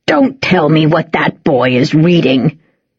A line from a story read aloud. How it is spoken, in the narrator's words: snapped Grandad